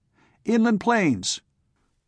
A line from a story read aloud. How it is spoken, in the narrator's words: That came almost in chorus